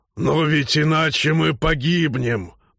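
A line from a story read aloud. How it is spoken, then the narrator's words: Growling. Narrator (Russian): прорычал Норл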